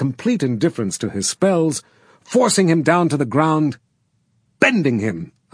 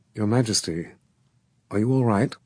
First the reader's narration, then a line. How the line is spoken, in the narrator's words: In a hushed voice, she said